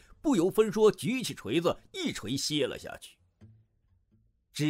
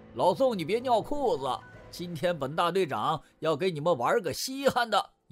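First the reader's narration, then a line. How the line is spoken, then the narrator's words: Hearty laughter. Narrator (Chinese): 梁大牙老远 哈哈笑道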